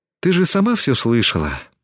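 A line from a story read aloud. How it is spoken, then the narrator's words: Sigh. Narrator (Russian): вздохнула Тесми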